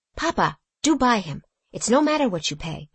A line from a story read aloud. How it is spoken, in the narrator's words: whispered Eva, softly